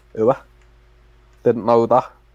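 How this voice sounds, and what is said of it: Put-on northern English accent. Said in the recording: “ooh, he's gone northern.”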